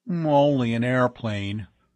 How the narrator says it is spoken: Bud grumbled

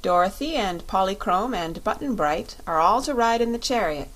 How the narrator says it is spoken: said the Lion

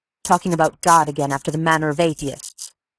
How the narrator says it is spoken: Amory said sharply

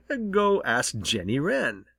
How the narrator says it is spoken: chuckled Winsome Bluebird

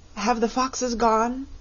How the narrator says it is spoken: it asked, in a trembling voice

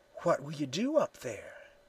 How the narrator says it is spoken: she whispered

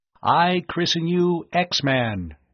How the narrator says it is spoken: Tom intoned

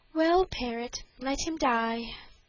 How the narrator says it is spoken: answered the princess with a sigh

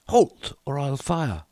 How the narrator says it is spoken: He cried

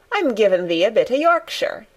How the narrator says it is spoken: answered Mary triumphantly

